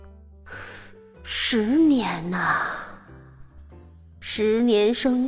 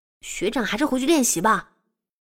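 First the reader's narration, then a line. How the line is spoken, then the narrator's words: Hurried. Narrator (Chinese): 我急忙说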